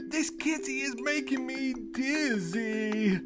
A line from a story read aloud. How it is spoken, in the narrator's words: she groaned